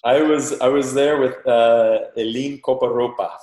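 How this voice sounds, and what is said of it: Panamanian accent on a name. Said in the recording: “That's my Panamanian accent coming out right there.”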